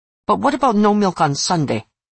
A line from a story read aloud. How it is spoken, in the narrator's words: said angrily